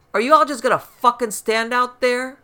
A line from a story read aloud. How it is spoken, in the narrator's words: the voice shouted